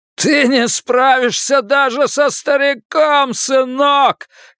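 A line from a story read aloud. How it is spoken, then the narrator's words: Excited shouting. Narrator (Russian): кричал Голдман в возбуждении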